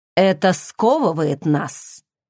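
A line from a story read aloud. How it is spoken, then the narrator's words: Muttered, prince. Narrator (Russian): пробормотал принц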